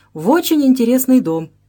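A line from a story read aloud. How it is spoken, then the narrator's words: Cheerful reply. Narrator (Russian): весело отвечал Ожогин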